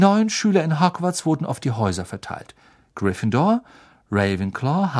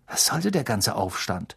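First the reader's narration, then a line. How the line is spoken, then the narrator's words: Murmured. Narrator (German): murmelte er Harry zu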